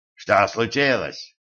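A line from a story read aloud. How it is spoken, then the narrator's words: Barking. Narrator (Russian): рявкнул он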